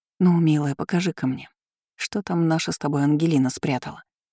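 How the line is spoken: Whispered. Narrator (Russian): прошептала я

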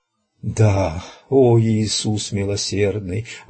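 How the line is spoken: Gloomy old man's breathed words. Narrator (Russian): выдохнул угрюмый старик

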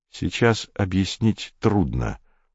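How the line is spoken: Soft reply. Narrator (Russian): мягко ответил Комов

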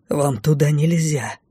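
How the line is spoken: Wary hiss. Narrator (Russian): прошипел маг, настороженно озираясь

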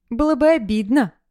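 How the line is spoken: Laughing. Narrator (Russian): засмеялась Настя с собственной шутки

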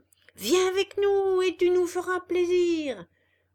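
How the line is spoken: Many voices shouting. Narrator (French): hurlèrent toutes les voix

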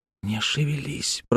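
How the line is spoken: Whisper. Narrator (Russian): прошептал Тим

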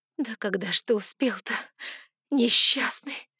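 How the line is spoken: Sobbing with pity. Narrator (Russian): всхлипнула я от накатившей жалости

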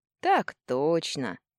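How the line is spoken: Lazy confirmation. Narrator (Russian): лениво подтвердил Иваныч

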